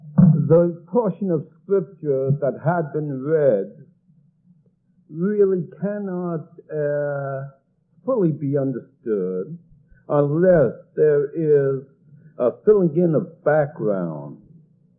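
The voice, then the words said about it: Southern Georgia accent. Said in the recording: “live in the South, where everyone who was born there is called a Georgia cracker ... in case you hear a peculiar accent and can't understand me”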